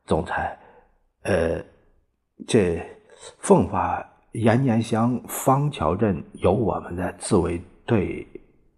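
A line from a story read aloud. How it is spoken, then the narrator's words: Stammering report. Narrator (Chinese): 侍卫长结结巴巴的报告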